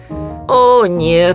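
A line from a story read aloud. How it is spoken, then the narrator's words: Moaning. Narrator (Russian): простонал кролик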